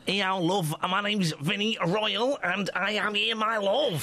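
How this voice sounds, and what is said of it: Put-on Manchester accent. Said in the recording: “He's doing a Manchester accent.”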